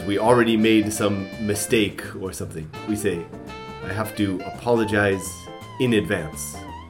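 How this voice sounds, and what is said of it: Hoarse, worn-out voice. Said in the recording (Japanese): “I lost my voice last night.”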